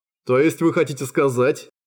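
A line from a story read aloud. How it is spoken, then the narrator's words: Contemptuous snort. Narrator (Russian): Презрительно фыркнул фон Заект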